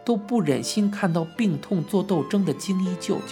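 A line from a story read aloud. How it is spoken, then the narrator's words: Crying. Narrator (Chinese): 姨妈们哭着说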